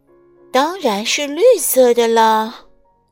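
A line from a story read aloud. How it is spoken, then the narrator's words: Sighing reply. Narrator (Chinese): 百事通小姐叹着气回答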